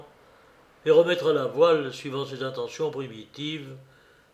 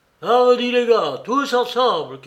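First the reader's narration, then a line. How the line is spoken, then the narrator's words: Shouted. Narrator (French): cria Mary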